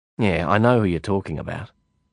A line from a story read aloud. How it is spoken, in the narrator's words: I said testily, irritated by the conversational non sequitur